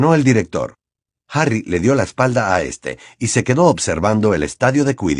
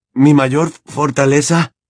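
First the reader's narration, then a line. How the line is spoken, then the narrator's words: Trembling repetition. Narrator (Spanish): repitió Harry con voz temblorosa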